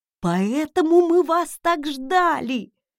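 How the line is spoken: Joyful exclamation, mustached man. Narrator (Russian): радостно воскликнул усатый

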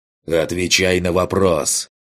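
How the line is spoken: Roaring. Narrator (Russian): Буквально проревел я

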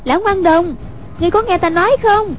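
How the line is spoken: Calling out. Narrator (Vietnamese): Hoàng Dung kêu lên

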